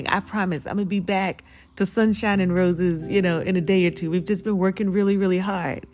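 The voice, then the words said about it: Raspy voice. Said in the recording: “Forgive my raspy voice this morning.”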